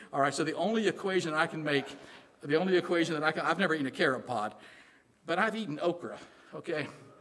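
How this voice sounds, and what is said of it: Southern American accent. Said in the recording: “I got this Southern accent. I can't get rid of it.”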